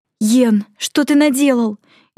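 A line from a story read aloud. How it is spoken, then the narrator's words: Frightened question. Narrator (Russian): испуганно спросила Майми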